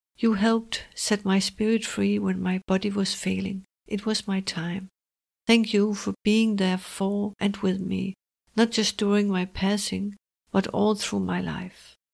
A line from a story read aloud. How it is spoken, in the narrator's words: says softly